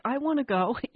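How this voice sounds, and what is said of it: Whiny voice. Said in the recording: “whiny voice”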